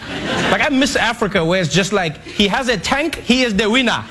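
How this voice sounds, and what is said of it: Put-on accent. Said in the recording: “he gets to do that accent, too”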